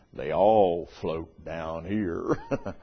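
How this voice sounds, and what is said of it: Creepy voice. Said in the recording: “creepy voice”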